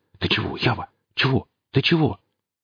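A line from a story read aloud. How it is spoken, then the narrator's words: Whisper. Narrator (Russian): Гриф зашептал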